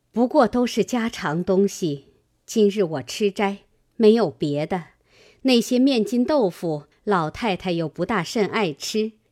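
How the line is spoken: Smiling. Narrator (Chinese): 王夫人笑道

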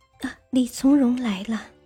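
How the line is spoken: Soft telling. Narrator (Chinese): 王淑妃轻声告诉皇帝

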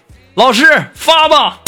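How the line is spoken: Loud. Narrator (Chinese): 光头同学大声的对老师说

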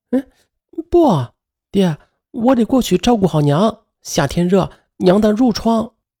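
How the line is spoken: Trembling voice. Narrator (Chinese): 他声音颤抖的说着

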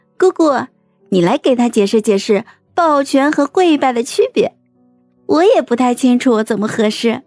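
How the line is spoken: Suppressed laughter, explaining. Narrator (Chinese): 孟婉婉咽下笑 解释道

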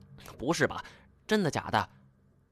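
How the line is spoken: Muttering. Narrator (Chinese): 金锁嘟囔着

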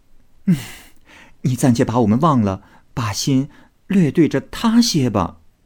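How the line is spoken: Laughing. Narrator (Chinese): 麝月笑 道

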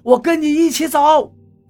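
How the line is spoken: Helpless shouting. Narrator (Chinese): 我无助地喊着

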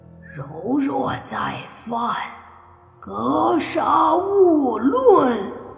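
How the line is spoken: Angry roar. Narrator (Chinese): 那老鬼的怒吼

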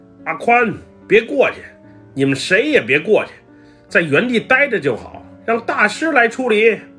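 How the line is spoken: Shouting. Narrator (Chinese): 东哥 喊道

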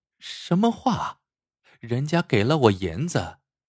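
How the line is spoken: Soft laugh. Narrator (Chinese): 翡翠轻轻一笑

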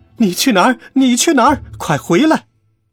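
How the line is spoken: Shouting from behind. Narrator (Chinese): 苏珊在后边大喊

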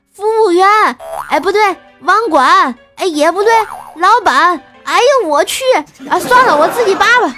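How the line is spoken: Anxious hurried shout. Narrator (Chinese): 着急就喊道

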